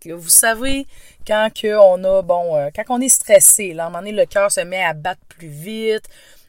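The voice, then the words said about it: Québécois French accent. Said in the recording (French): “vous entendez mon accent, effectivement. Je viens du Québec. ... Cet accent est bien un accent québécois”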